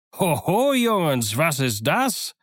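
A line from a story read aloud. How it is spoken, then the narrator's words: Calling out. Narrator (German): rief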